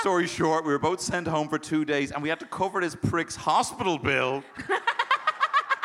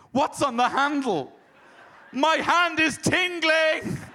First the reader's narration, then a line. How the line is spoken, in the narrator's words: he starts shouting